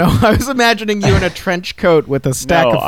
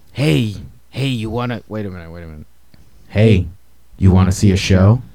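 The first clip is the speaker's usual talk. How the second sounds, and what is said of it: Shady back-alley show promoter voice. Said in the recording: “my impression of you as like a show promoter in the back alleyway”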